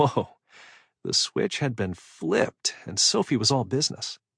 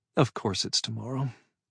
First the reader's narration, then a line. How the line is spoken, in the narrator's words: muttered